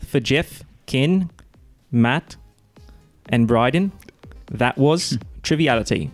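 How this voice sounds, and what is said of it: Attempted British accent. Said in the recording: “do it in the accent ... that was pretty good ... That's not bad ... Triviality was the only thing that was British”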